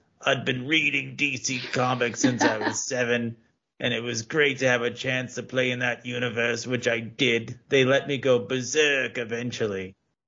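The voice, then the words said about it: Bad British accent imitating Alan Moore. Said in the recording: “kind of my bad British accent. ... I'm going to drop the accent now.”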